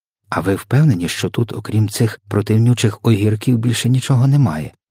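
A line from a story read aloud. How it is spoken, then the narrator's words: Plain question. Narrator (Ukrainian): запитала вона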